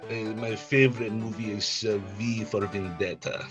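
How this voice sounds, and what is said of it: Put-on Russian accent. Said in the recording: “Say your favorite movie in a Russian accent. ... Perfect, perfect.”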